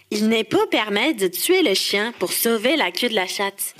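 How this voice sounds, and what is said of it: Québécois French accent. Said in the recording (French): “l'experte de l'accent québécois”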